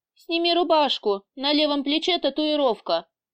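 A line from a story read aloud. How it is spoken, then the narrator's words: Sighing. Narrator (Russian): вздохнул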